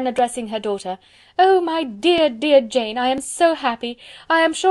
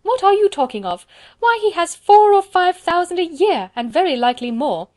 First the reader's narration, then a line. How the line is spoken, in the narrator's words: cried his wife